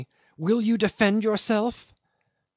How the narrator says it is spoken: she cried menacingly

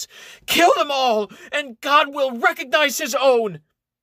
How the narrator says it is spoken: Suddenly having lost his speech impediment, the hysterical Inquisitor screams

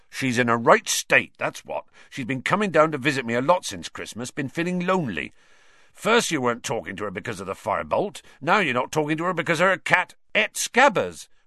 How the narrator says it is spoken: Ron interjected angrily

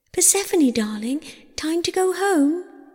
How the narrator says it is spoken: she cried

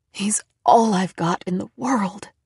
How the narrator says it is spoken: she whispered

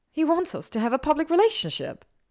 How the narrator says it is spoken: Hermione blurted, surprised at her own candor

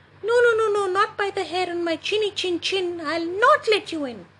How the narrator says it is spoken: squeaked the third little pig

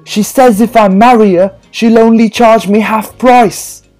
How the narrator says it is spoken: shouted

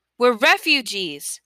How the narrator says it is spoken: Mahmoud yelled, unable to stay silent any longer

